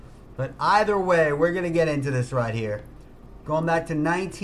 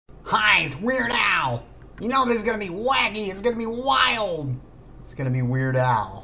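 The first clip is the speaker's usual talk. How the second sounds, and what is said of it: Wacky imitation of another person's voice. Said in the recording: “I do that voice on TikTok, everybody asks, what are you on? ... I'm just doing an impression of Weird Al Yankovic”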